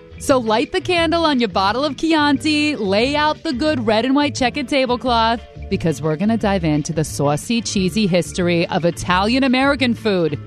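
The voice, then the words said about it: Put-on Italian-American Jersey accent. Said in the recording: “I'm going to finish that accent now”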